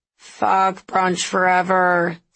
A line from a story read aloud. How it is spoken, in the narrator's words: Scott moaned